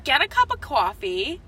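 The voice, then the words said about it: Long Island accent slips out. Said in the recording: “Long Island accent came out.”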